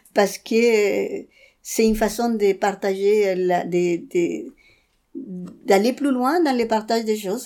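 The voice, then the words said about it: Speaks French with an accent. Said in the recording (French): “même avec mon accent”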